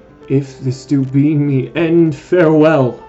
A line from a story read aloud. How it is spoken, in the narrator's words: cried the wounded piper boy